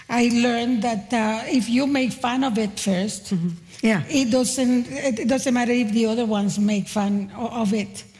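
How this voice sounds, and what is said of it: Speaks with a noticeable accent. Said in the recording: “I had hang-ups about the accent ... I have an awful accent”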